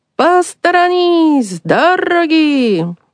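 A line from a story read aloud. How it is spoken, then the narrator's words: Very loud shout. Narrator (Russian): Санчо ударил своих ослов палкой и крикнул так громко, как только мог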